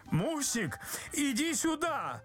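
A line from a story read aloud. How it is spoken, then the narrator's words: Frightened engineer's shout. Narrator (Russian): закричал испуганный инженер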